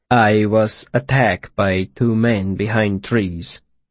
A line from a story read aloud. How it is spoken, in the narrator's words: Tempe said calmly